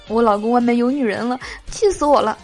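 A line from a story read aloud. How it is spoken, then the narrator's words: Tearful complaint. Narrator (Chinese): 闺蜜 哭诉说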